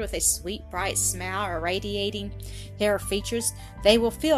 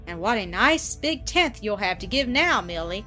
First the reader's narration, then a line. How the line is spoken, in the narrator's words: exclaimed Annis